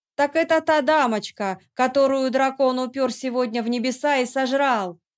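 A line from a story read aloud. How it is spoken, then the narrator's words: Drunken shout. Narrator (Russian): выкрикнул один из подвыпивших посетителей корчмы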